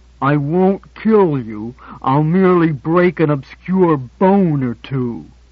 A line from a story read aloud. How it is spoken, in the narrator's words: said Bullwhip through clenched teeth